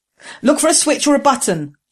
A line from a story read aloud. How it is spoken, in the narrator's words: Jessam shouted to Ging